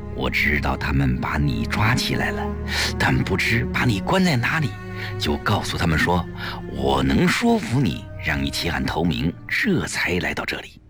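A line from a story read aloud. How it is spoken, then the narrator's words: Quiet. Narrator (Chinese): 季嫣然继而小声地说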